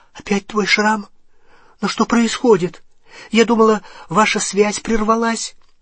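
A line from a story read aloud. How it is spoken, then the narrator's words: Frightened question. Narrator (Russian): Гермиона испуганным голосом спросила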